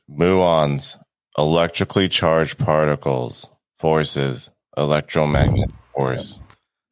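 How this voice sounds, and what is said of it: Dry, boring professor-like lecturing voice. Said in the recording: “Could you say that any drier? ... Can you do it more boring? Do it more like a scientist, like your professor in school ... Now you're doing an impression.”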